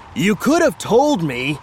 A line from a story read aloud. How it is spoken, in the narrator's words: Rook shouted over the roar of the wind